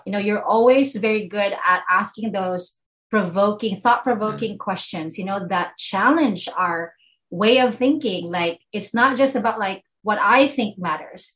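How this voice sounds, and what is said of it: Filipino accent. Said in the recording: “my filipino accent”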